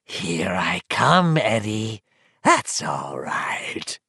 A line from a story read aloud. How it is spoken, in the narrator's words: it croaked